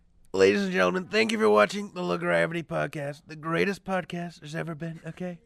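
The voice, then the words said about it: Imitates another person's voice. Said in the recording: “put us out in the Donald Trump accent”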